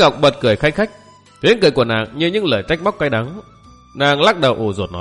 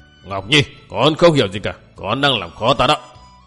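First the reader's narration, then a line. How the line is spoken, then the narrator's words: Irritated loud shout. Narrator (Vietnamese): Dĩ Hoành bực dọc quát lớn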